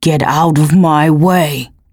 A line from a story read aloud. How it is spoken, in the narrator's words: he snarled